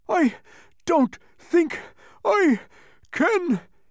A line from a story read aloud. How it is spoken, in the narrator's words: he gasped ... the thunder stole his words